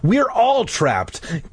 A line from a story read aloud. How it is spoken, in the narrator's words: Clay cried